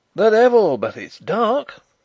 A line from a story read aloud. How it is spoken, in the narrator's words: cried a ringing voice